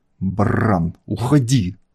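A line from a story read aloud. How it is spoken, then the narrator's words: Angry growl. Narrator (Russian): зло прорычал он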